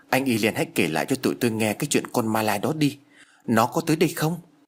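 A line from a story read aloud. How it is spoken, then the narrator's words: Trembling fearful pleading. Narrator (Vietnamese): Anh chàng nhát gan nhất vừa run rẩy vừa van lơn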